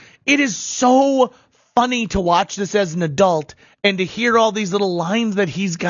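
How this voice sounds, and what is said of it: Usual voice. Nothing is said of it.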